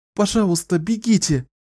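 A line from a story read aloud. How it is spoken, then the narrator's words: Pleading. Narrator (Russian): взмолилась сестра Фианула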